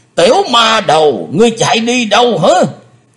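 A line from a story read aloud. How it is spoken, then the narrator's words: Roaring. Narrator (Vietnamese): tiếng gầm rống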